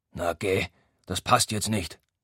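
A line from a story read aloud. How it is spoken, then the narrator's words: Grumbled. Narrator (German): brummt er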